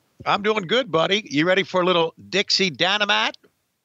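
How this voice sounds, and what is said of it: Exaggerated Southern country accent. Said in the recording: “amping up the country accent”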